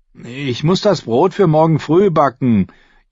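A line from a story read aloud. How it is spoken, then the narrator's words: Whining. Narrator (German): jammerte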